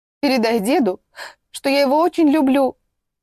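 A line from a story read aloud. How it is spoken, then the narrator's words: Tearful speech. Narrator (Russian): Сквозь слезы проговорила она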